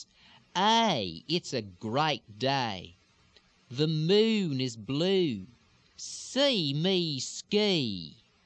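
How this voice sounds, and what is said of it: Drawn-out Houston Texas accent with lilt. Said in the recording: “Houston or Harris County area ... a little slower and a little bit more drawn out, still pushed forward into the lips ... a little bit more lilt, a little bit more of the elongation, the pushed vowels or the reversed lilt extensions”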